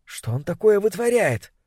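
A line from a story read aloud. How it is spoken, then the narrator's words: Whispered question. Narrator (Russian): Кто-то рядом с Сюзанной спросил шепотом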